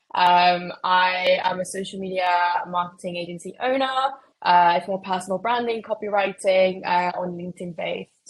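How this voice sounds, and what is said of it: Mexican accent with British tinge. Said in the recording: “if anyone gets confused at my accent, is because I'm actually Mexican, but just pretend I just catfish to be British 24/7”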